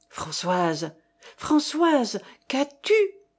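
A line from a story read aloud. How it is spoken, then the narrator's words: Male stammering. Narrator (French): balbutiait-il encore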